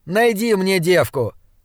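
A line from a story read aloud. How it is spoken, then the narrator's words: Loud throaty snort. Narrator (Russian): Блад громко хмыкнул, судя по урчанию в глубине его глотки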